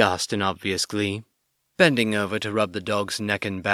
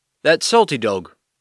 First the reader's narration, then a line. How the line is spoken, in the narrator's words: Gamlin called out